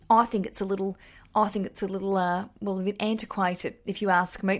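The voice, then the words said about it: Broad suburban Australian accent, Kath and Kim. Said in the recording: “That's my real Australian sort of, a bit Kath and Kim. That's how you'd talk if you're out in the suburbs.”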